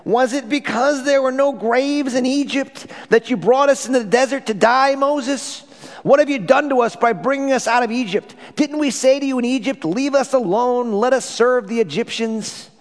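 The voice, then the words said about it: Exaggerated whiny voice. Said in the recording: “I'm going to do my whiniest voice.”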